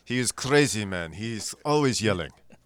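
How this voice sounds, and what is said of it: Bad put-on Russian accent. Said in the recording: “You both sound like you're doing a really bad Russian accent now.”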